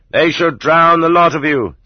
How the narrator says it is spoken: such people shouted

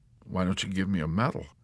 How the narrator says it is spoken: Yossarian suggested timidly

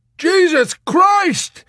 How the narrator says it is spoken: he screamed at Arfi in tortured amazement

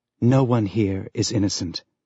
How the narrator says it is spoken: Julie whispered in the back of his mind

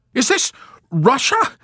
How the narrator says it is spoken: Milo assailed them incredulously at the top of his voice

